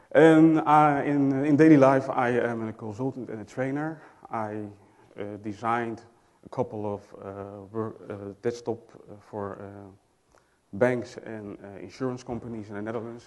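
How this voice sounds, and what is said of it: Dutch accent speaking English. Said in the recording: “I'm from the Netherlands, so excuse me for my accent, I can't help it.”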